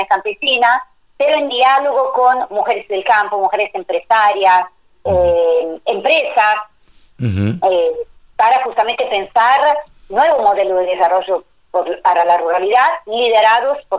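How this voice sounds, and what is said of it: Italian accent. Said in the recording (Spanish): “yo te escucho un acento italiano? ... Sí, italianísima.”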